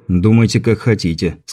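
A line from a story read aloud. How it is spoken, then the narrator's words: Plain. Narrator (Russian): сказал Андрей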